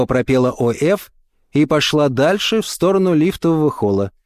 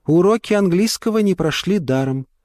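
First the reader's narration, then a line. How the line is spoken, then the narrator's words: Sighing. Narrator (Russian): вздохнула понаехавшая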